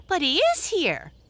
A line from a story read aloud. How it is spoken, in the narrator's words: cried one of the little breezes